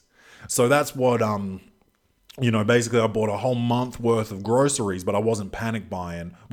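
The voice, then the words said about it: Slightly congested voice. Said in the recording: “I don't know if you can hear it in my voice. I don't have a sore throat or nothing, but I am a bit congested up here. Listen, you know, sounds a bit congested”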